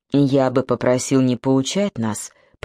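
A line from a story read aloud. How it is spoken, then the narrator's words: Grumble. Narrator (Russian): проворчал Зубик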